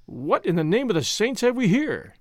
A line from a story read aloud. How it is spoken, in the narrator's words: he exclaimed